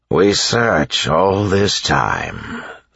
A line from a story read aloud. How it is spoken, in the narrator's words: said an inquisitor in his grinding voice